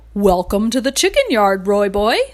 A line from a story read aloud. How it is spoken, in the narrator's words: Horse said cheerfully